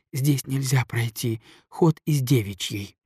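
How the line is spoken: Desperate whisper. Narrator (Russian): сказала она шепотом с выражением истинного отчаяния

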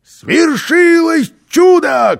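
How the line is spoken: Shout. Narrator (Russian): крикнул он

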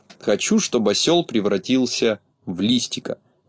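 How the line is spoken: Quiet male voice. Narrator (Russian): негромко сказал он

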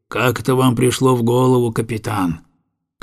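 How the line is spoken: Gloomy question. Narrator (Russian): он мрачно спросил

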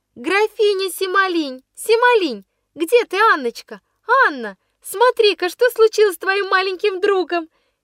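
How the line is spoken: Shouting schoolgirl. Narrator (Russian): кричала какая-то воспитанница старших классов

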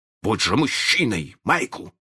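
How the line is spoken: Stern. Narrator (Russian): он строго сказал

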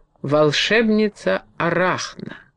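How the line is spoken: Resonant voice. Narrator (Russian): заговорил звучным голосом Харт

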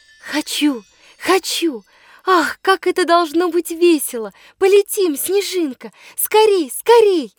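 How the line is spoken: Joyful shouting. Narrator (Russian): Радостно кричу

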